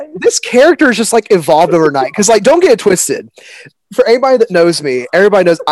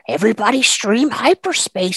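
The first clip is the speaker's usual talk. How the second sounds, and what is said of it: Cartoon character voice. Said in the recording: “a picture of the Minion March Simpson ... do the voice ... give the listeners a little Minion March”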